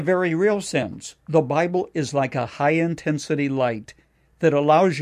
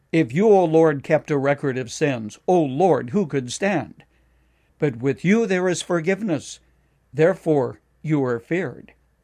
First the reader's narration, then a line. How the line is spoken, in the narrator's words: David cried out